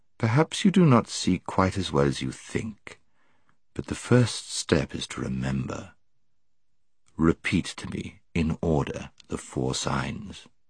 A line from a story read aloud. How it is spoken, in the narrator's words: said Aslan, in a gentler voice than he had yet used